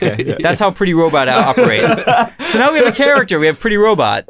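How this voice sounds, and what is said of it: Usual voice. Nothing is said of it.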